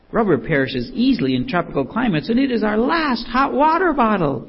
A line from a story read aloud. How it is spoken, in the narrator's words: she exclaimed